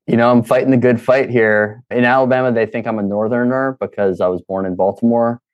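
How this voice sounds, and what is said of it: Baltimore accent. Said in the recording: “your accent is not correct with Alabama ... Protect that Baltimore twang.”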